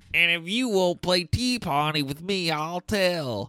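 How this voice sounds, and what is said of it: Whiny nasal child's voice. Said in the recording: “in her whiny voice ... You're actually holding your nose”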